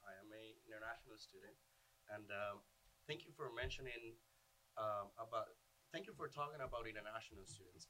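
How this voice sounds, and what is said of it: Venezuelan Spanish accent. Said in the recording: “if you guys can hear my accent ... I am from Venezuela”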